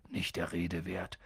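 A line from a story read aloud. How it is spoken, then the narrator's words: Gruff. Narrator (German): sagte Hagrid schroff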